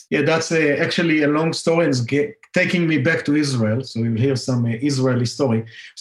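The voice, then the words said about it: Israeli accent. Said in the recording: “my favorite accent in the world is an Israeli accent, and I want to take yours.”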